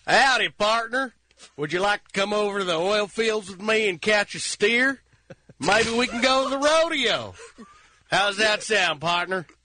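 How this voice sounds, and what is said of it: Put-on Texas accent. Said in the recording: “Texas. A Texas accent. ... Texas accent. ... It's uncanny.”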